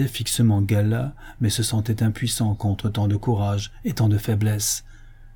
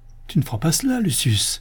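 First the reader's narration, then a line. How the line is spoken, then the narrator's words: Terrified cry. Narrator (French): s'écria Styrax au comble de la terreur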